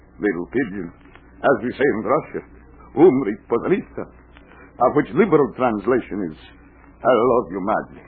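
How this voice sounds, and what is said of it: Put-on Russian accent. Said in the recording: “the accent, the beard, she comes and goes. It's all the Russian custom.”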